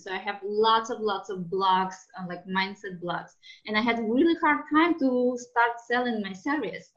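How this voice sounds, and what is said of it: Strong foreign accent. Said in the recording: “I'm from another country ... I have a very strong accent.”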